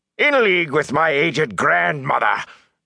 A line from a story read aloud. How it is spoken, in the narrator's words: Captain Doman roared